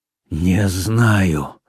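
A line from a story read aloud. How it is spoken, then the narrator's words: Weak, exhausted, then shouting. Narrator (Russian): слабым, измученным голосом ответил Рауль и вдруг сорвался на крик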